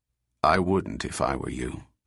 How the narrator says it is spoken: said David coldly

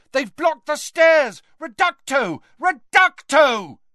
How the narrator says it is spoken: a voice shouted

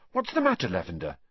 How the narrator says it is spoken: said Hermione anxiously

